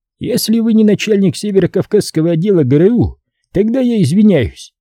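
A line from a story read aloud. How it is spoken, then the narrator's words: Answering snort. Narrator (Russian): ответно хмыкнул Сайфуль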